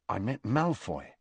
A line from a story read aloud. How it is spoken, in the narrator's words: Harry told her quietly